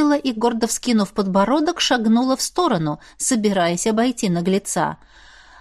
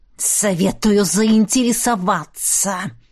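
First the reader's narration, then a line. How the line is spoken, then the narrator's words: Dragon hissing. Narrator (Russian): прошипел дракон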